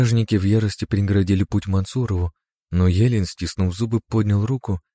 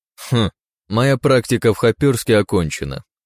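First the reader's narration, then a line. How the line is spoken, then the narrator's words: Wry snort. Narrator (Russian): хмыкнул Мансуров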